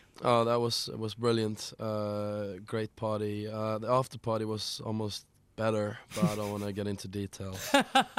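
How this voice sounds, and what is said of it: Hoarse voice. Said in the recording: “You sound a little bit hoarse.”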